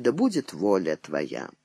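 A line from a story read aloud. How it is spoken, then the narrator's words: Barely audible prayerful whisper. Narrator (Russian): игуменья Досифея, губы ее чуть слышно шептали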